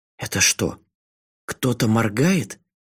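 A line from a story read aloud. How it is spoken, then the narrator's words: Strangled voice. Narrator (Russian): сдавленным голосом спросила Асакава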